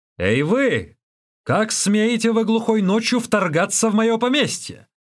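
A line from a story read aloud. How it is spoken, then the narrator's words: Shouted. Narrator (Russian): закричал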